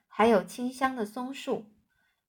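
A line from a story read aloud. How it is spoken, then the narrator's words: Sighing. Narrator (Chinese): 万次郎叹息着说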